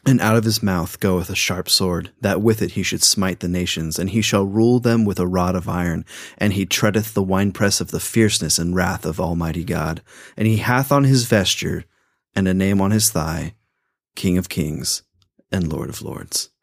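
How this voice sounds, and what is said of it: Epic dramatic reading voice. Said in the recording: “actually in my epic voice”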